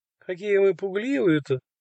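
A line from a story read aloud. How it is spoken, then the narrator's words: Laughing. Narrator (Russian): Засмеялась мама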